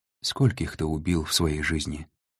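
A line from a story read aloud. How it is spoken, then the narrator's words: Quiet question. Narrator (Russian): тихо спросила Анна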